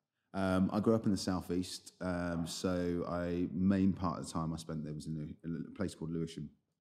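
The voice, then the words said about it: London accent. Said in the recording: “Yeah, London accent.”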